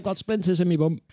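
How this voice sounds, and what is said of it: Keir Starmer impression. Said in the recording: “my Keir Starmer impression”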